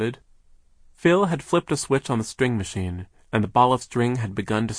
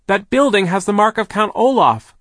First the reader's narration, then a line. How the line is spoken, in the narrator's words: Klaus shouted